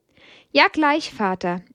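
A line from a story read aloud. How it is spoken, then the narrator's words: Bright-voiced reply. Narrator (German): erwiderte sie mit heller Stimme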